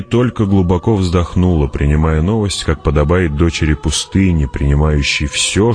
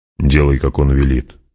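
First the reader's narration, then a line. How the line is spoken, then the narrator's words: Gruff mutter. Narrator (Russian): буркнул Стилгар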